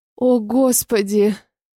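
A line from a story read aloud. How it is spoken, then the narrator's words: Moaning. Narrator (Russian): простонала Вика, когда я увеличил скорость движений в ней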